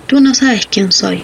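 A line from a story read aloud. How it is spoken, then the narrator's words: Plain. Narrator (Spanish): dijo ella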